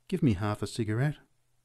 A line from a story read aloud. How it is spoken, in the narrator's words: A small woman said gently